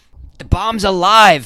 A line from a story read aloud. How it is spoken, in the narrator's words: Fiddly Pucklechurch shouted